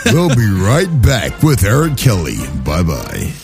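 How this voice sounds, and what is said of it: Radio announcer voice. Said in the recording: “I got a great radio voice.”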